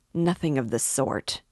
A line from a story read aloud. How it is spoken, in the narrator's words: Raskolnikov insisted, irritably